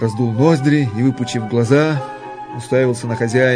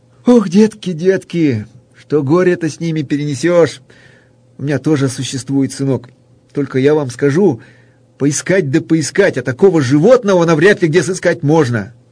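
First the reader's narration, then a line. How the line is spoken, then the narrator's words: Sad, sighing guest. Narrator (Russian): Гость крепко вздохнул и, грустно покачивая головою, произнес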